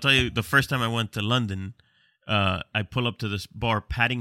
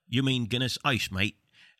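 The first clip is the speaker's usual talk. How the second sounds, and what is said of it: Bad put-on London accent. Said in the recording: “apologies for the bad accent.”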